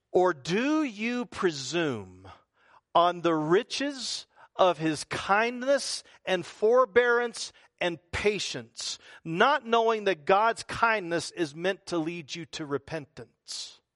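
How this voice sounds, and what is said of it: Slow, deliberate reading. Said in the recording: “I'm going to read this slowly.”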